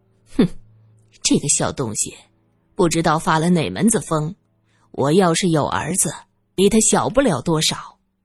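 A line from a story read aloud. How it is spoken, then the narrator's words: Cold. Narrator (Chinese): 林小姐冷冷地说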